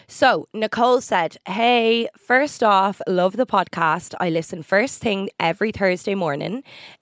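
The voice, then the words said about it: Congested, flat, emotionless voice. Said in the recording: “if I sound weird during this episode ... I feel like I have no emotion in my voice today ... I sound depressed because my nose is all congested”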